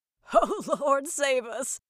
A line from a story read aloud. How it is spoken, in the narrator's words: laughed